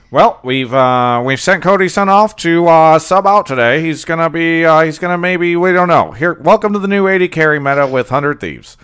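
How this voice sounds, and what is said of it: 1920s radio announcer voice. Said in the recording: “Hell voice is that? ... 1920s ... voice. ... Radio announcer voice.”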